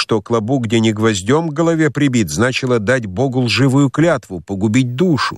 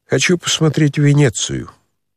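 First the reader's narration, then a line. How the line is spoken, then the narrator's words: Smirk turning dejected and quiet. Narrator (Russian): усмехнулся было царевич, но тотчас прибавил уныло и тихо, как будто про себя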